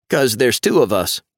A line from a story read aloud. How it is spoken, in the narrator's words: Owen says, getting a laugh